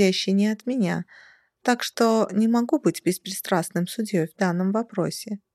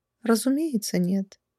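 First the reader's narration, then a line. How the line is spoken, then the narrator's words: Calm female vampire. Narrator (Russian): спокойно откликнулась вампирша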